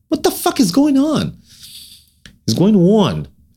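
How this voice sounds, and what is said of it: Put-on New Jersey accent. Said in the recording (Hebrew): “אני עובד על מבטא ניו ג'רזי”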